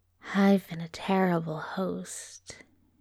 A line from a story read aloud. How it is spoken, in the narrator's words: he breathed